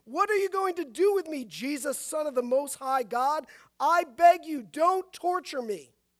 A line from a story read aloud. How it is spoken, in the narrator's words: he cried out and fell at his feet, shouting at the top of his voice